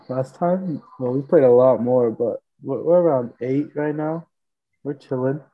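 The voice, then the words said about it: Voice sounding unwell. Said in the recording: “Excuse my voice, guys, too. I'm a little under the weather.”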